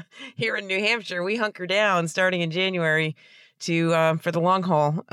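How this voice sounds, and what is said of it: Voice sounds sick with a cold. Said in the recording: “You might be able to hear from my voice that I've been a little bit under the weather... a cold”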